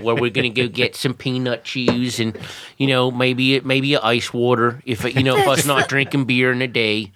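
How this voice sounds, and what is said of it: Put-on Philadelphia accent. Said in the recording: “You just got that Philly thing going on there”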